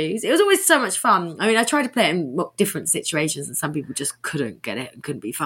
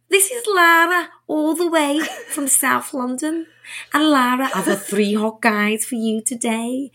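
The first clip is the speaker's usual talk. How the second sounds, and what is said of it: Put-on accent imitating another person's voice. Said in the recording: “I'd be Cilla Black with them, put on an accent like this ... Do it in the accent.”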